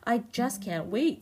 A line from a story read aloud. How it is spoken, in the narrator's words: said Lanky Len